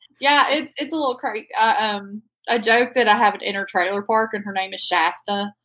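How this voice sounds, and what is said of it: Strong regional accent. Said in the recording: “I do love your accent. It's awesome. It's so fun.”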